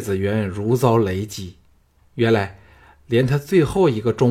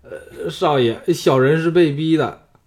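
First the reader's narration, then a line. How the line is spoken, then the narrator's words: Trembling voice. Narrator (Chinese): 谢全颤声说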